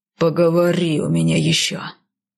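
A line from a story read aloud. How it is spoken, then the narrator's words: Growled, husband. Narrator (Russian): прорычал супруг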